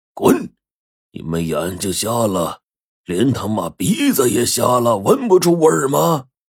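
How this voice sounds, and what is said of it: Loud shouted yell. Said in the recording (Chinese): “大喝了一声”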